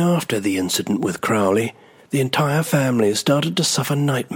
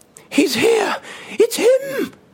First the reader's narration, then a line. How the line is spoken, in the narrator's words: she screamed